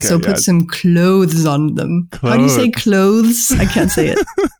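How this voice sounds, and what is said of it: French accent. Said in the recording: “my French accent ... my French accent is betraying me”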